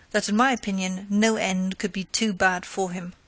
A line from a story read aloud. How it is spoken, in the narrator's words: she replied scornfully